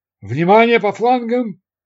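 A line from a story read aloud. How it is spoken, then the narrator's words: Shouted over gunfire. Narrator (Russian): крикнул первый пилот для бортстрелков, потому что по вертолету снова хлестали из автоматов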